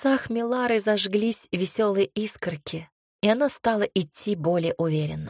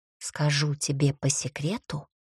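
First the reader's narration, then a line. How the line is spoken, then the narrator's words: Confiding whisper. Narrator (Russian): доверительно шепнула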